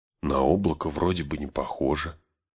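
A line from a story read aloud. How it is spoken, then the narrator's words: Whisper. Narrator (Russian): шепотом сказал Арагорну Сэм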